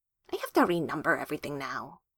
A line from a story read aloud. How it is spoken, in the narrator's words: she mutters